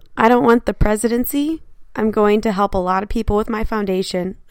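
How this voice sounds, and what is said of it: Tom Cruise impression. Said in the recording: “Was that a good cruise impression? ... No, it's got me more grainy.”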